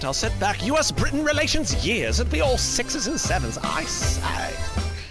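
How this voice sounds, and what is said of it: Put-on British accent. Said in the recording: “which player has the most convincing British accent ... Was that actually a good British accent? ... I think so.”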